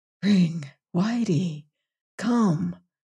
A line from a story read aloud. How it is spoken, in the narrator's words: he called softly